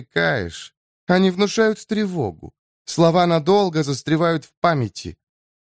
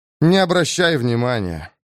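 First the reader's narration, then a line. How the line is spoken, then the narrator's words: Tired advice. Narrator (Russian): устало советую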